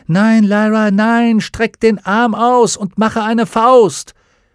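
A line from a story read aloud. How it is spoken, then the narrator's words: Shouting as loud as possible. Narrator (German): Salmakia rief, so laut sie konnte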